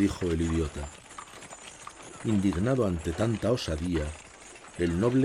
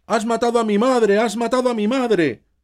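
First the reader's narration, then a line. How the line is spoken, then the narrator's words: Simpleton's shout. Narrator (Spanish): gritó el tonto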